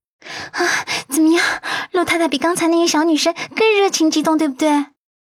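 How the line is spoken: Breathless, teasing. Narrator (Chinese): 他气喘吁吁的揶揄

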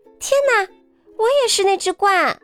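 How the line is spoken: Loud exclamation. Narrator (Chinese): 伊莎贝拉 大叫起来

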